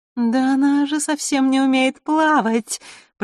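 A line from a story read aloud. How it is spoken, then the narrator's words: Drawling mermaid, thin laugh. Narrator (Russian): протянула вдруг одна из русалок и тоненько засмеялась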